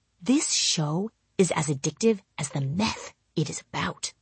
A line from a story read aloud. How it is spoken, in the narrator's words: I whispered to my husband